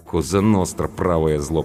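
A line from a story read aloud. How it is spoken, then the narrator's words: Muttered. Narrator (Russian): пробурчала Анка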